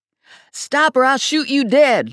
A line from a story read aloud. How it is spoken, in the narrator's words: Lula yelled to Virgil